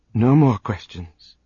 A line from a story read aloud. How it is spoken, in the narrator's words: Trazin said, his voice reverent